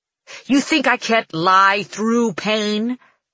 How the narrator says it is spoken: He snarls, his voice thundering through the room

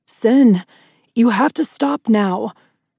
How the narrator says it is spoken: Adam shouted

